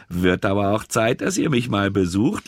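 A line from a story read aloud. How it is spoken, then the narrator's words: Laughing. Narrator (German): lachte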